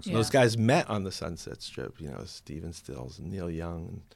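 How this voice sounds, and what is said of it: New Jersey accent. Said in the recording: “I can hear it in your accent, you still have your New Jersey accent”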